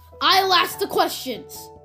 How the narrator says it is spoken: barked Mr

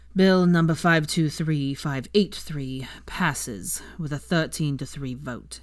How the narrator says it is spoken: Percy intoned wearily

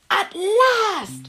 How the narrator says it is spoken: shouted Silvermouth

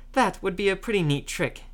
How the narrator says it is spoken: snorted

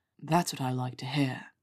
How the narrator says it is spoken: he murmured

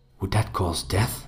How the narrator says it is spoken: I whispered

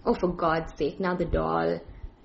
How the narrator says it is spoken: groaned, saying

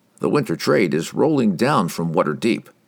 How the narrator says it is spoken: Oberon replied with a chuckle

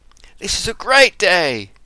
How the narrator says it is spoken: exclaimed Susan

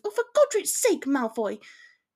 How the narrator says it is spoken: she shouted, oblivious to how close they were with her frustration

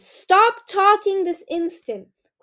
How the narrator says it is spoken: Queen Scarlet bellowed

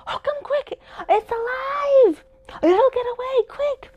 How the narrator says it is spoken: Anthina suddenly screamed

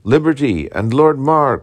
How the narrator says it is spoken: cried Kirkpatrick

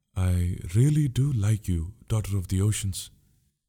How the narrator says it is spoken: said the prince slowly

